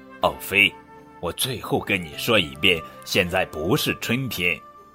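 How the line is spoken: Impatient muttering. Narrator (Chinese): 熊妈妈不耐烦地嘟囔着

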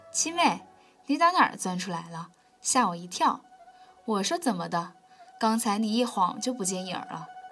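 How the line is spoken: Laughing, sudden. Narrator (Chinese): 四奶奶忽然笑道

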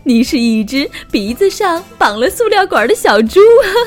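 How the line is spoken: Laughing kangaroo. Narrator (Chinese): 袋鼠大笑着

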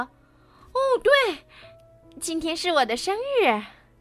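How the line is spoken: Sudden excited cry. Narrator (Chinese): 突然，安娜仿佛意识到了艾莎刚才说的话，叫道

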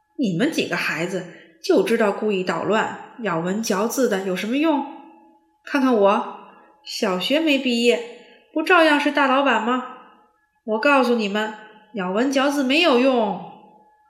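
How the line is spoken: Half joking, half angry. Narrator (Chinese): 沃尔夫半开玩笑半生气地说

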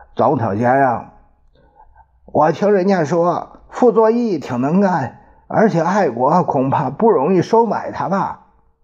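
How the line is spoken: Hoarse question. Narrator (Chinese): 另外一个沙哑的声音在问

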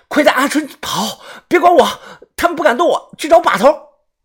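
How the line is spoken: Strained, pained shout. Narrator (Chinese): 我满头的大汗，强忍着剧痛，喊道

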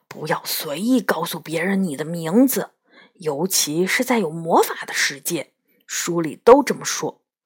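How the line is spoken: Whispering in ear. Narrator (Chinese): 他小声在我耳边说

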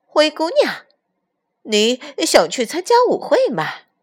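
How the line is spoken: Mocking question. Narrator (Chinese): 姐姐嘲笑地问灰姑娘

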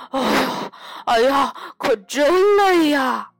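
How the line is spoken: Panting, out of breath. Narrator (Chinese): 艾迪大口地喘着气说

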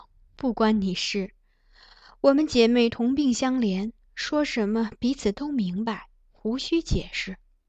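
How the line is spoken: Sighing. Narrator (Chinese): 苗昭荣叹道

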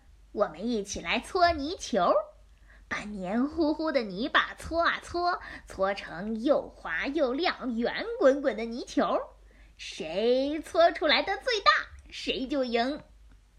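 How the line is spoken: Laughing. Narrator (Chinese): 比尔立刻笑着说

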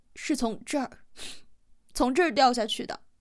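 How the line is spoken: Holding back sobs. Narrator (Chinese): 明明克制着哭声

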